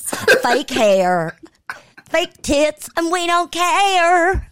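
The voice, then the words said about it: Put-on country singer accent. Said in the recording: “Me putting on that accent, ... I'm just channeling my inner Dolly”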